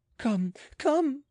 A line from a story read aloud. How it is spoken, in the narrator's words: cried the queen